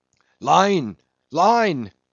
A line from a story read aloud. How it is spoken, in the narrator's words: cried Queequeg